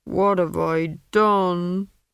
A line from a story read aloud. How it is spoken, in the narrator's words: He moaned